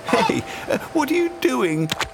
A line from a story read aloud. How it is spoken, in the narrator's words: Dodo giggled